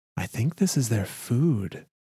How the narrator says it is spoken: a young woman whispered to her male companion, warily

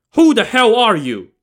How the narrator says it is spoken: Yang Zhi barked

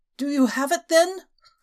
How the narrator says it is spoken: quavering

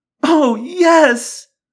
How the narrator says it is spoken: Marion cried

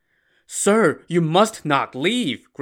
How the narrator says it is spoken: Grandpa Liu begged

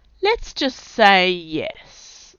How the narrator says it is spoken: said Sarge in a drawl

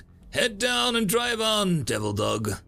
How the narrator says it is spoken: The marine behind chuckled

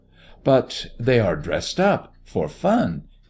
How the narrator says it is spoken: he exclaimed, more to himself than to the girl in skins

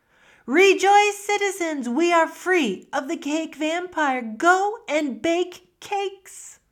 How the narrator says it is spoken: Shouts of joy went out from the town

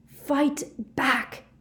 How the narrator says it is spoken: Harry screamed at him

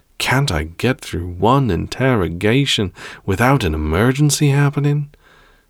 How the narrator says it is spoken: He sighed

